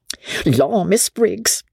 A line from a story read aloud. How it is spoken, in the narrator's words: the girl exclaimed